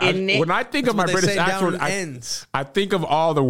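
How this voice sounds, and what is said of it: Usual voice. Nothing is said of it.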